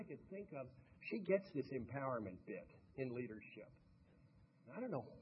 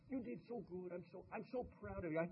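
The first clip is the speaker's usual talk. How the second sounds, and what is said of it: Rolling Romanian accent, imitating Marta Karolyi. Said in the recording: “Marta Caroli, the coach ... with that rolling Romanian accent”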